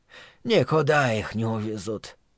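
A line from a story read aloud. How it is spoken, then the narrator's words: Sighing. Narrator (Russian): вздохнул Соумс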